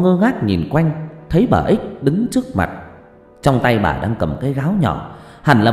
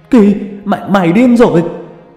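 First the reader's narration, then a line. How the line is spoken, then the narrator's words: Panicked cry. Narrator (Vietnamese): la lên thất thanh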